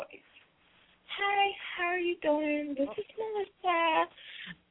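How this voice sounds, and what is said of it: Put-on white girl voice. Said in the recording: “my unquote, white girl voice.”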